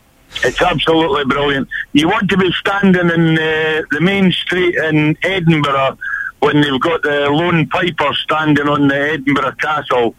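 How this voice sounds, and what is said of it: Noticeable regional accent. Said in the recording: “you've given yourself away with your accent there, fella”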